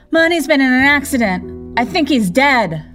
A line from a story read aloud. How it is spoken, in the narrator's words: screaming